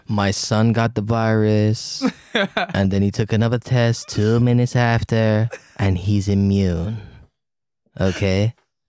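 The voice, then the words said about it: Imitates another person's voice. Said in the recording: “I'll give I you like a Trump, man. If you do the rest of this in the Trump accent”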